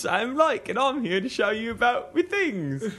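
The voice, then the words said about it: Bad layered impression of another's voice. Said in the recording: “my impression of Shane doing an impression of David Attenborough doing an impression of Sam. ... That was ... bad impression.”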